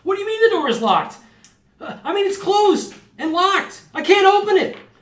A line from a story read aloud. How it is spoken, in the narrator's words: random voices of all of your party like screaming